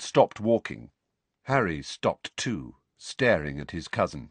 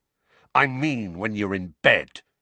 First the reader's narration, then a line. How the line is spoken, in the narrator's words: Dudley snarled